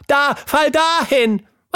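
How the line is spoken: Screaming. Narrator (German): schrie Tilda

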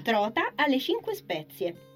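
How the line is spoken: Excited exclamation. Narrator (Italian): esclamò lei eccitata

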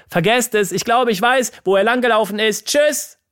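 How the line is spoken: Called out. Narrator (German): rief

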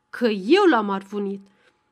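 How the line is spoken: Harsher repeat. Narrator (Romanian): Ion repetă mai aspru

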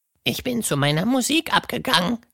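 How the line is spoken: Croaking. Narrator (German): krächzte ihr Freund

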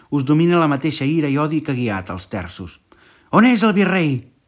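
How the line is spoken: Man shouting. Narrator (Catalan): va cridar un home

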